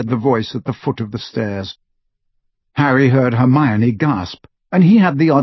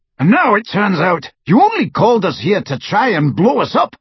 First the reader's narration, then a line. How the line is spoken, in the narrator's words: roared the Death Eater